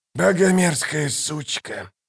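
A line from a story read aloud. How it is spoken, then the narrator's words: Hoarse rasp. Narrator (Russian): прохрипел Калор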